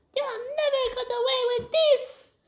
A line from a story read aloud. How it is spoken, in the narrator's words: squeaked Prince Zuli